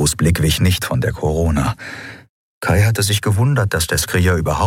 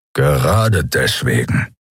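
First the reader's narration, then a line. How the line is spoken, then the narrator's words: Growl. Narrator (German): knurrte Keru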